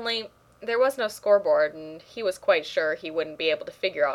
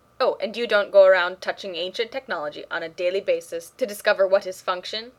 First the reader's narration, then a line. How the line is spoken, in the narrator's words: Radek snapped